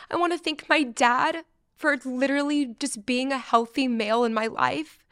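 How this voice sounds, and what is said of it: Emotional, voice close to tears. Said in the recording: “I'm getting emotional.”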